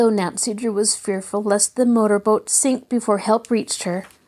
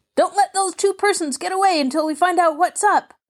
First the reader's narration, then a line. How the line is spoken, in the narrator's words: Someone shouted